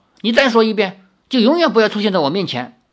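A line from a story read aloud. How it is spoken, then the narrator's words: Angry. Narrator (Chinese): 林月如怒道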